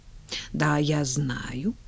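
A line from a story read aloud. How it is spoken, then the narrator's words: Muttering. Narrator (Russian): пробормотала она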